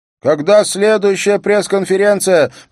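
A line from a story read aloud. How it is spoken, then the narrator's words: Shouting. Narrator (Russian): прокричала Мона До, криминальный репортер газеты ВГ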